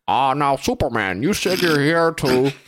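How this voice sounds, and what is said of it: Imitates another person's voice. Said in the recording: “if you do an impression... for Wolf Blitzer”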